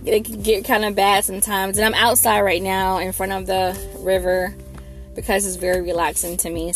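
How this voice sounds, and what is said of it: Slightly froggy, rough voice. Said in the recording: “excuse my voice ... if you hear my voice sounding a little froggy”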